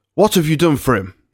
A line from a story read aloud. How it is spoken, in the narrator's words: asked sharply